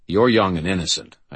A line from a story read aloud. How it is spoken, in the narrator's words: I said firmly